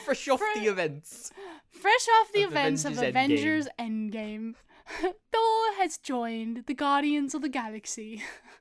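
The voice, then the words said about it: Put-on British accent. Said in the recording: “British accent ... That's just a British accent, though.”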